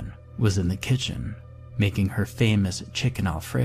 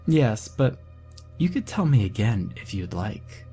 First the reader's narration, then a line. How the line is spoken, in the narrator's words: she playfully responded